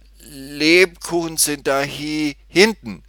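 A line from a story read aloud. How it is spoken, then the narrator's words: Stammered. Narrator (German): stotterte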